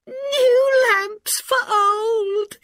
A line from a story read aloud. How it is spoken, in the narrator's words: the old man called